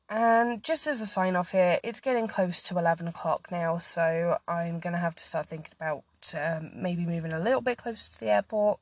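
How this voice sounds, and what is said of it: Strained, fading voice. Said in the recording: “I think I'm starting to lose my voice a little bit ... talking for half an hour straight on a podcast has not done my voice any favours ... I am still getting over a cold”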